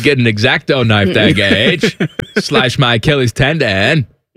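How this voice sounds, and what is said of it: Put-on Maine accent. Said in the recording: “my Maine impersonation”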